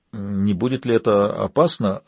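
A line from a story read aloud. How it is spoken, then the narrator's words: Timid question. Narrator (Russian): робко поинтересовался Чанг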